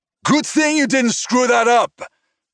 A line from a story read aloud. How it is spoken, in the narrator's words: Vincent shouted over the noise